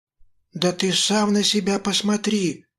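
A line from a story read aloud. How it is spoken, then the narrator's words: Faltering babble. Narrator (Russian): пролепетала Мила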